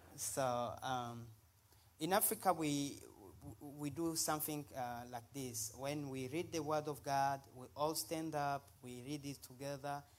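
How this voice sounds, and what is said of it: Speaks English with own accent. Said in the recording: “Just worry about my accent.”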